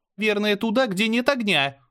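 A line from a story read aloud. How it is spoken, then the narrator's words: Panicked yell. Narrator (Russian): заорала Мира, явно начиная паниковать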